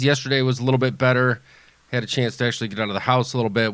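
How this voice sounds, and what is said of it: Sounds sick. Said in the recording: “You sound a bit sick.”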